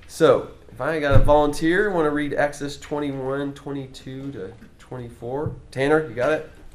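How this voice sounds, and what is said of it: Voice slightly off, a little iffy. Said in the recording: “my voice is a little iffy this week”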